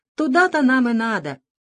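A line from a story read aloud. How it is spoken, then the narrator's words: Happy sneeze. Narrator (Russian): радостно чихнул Шприц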